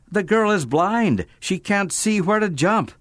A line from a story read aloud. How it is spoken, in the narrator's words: a neighbor shout